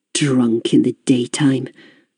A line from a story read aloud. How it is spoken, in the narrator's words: I said quietly, more to myself than to Raymond